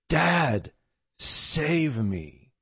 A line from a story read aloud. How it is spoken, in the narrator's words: finally cried out and she said